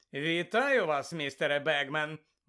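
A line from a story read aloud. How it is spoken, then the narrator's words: Cheerful. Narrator (Ukrainian): весело сказав Фред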